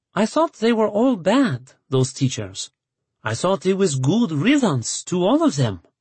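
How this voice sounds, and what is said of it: Thick French accent, hard to understand. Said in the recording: “Grandmère had a thick French accent that was hard to understand sometimes.”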